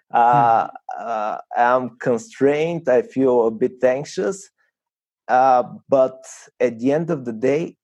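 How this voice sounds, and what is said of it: Nervous, slightly trembling voice. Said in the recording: “my voice is almost trembling”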